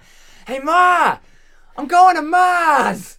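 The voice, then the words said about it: Put-on Boston accent. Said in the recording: “my Boston accent”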